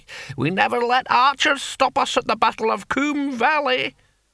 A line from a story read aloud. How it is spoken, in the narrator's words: cackled the antique barbarian